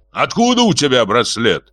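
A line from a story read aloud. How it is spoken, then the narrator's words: Frenzied shout. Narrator (Russian): исступленно закричал Георгий Десятый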